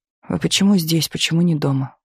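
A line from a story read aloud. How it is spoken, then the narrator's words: Tired question. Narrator (Russian): устало спросила она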